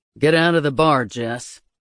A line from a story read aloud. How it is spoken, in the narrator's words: Austin growled